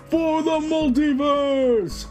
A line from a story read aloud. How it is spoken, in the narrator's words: Aquaman yells